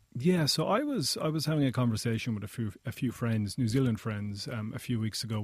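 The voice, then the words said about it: Pleasant non-local accent. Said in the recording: “I think you have a beautiful accent”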